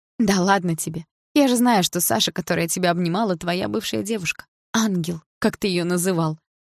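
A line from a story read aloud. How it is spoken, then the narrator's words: Mocking reply. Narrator (Russian): насмешливо ответила я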